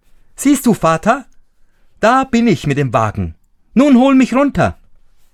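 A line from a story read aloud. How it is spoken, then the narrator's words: Tiny boy calling out. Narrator (German): Daumesdick rief er ihm zu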